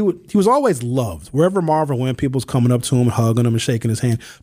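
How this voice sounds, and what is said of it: Usual voice. Nothing is said of it.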